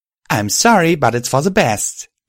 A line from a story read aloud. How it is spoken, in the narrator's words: I cried out, tears beginning to form in my eyes